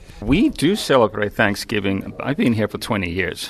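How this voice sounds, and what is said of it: Speaks English with a foreign accent. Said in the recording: “I'm enjoying your accent greatly”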